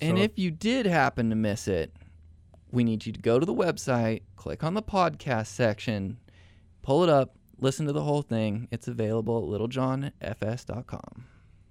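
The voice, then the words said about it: Imitates another person's voice. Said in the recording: “that was my best David impersonation. Was it close? ... It was nailed.”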